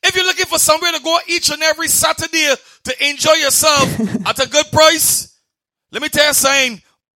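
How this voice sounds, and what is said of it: Bahamian accent. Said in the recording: “a really good example of the Bayesian accent.”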